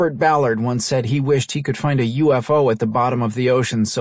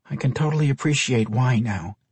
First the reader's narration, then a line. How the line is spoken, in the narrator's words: she muttered